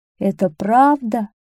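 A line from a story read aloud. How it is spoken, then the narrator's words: Trembling, tearful king. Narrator (Russian): спросил король дрожащим голосом и снова расплакался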